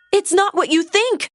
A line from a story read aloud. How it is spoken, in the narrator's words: Merida cried